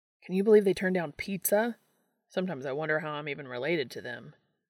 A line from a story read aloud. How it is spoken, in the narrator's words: he started and then sighed